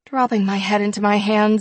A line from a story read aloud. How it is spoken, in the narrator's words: I groan